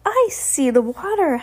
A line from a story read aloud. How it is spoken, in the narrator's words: Heidi shouted